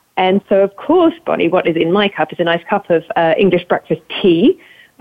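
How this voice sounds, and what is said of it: British accent. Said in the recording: “I sound very British”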